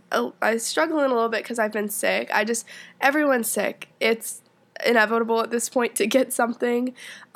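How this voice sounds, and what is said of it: Congested, sick-sounding voice. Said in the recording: “I don't know if you can tell from my voice ... I have a little bit of just like head congestion”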